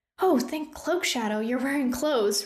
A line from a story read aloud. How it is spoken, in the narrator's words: Rune exclaimed